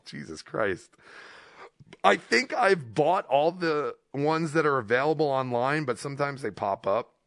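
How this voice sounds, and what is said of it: Rough, strained voice. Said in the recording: “my voice is garbage”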